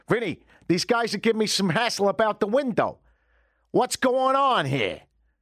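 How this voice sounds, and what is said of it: Put-on New York accent, gangster-like. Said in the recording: “he had a very cool kind of New York accent ... I'm more responsive to New York accents ... They've got that sort of gangster thing going”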